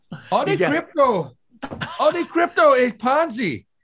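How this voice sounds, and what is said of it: Put-on Indian accent. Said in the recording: “Do it in his accent ... That's a horrible Indian accent ... No, it's perfect”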